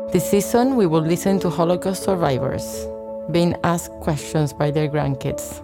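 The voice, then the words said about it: Argentine-accented English. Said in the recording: “You're gonna hear an accent because I was raised in Argentina”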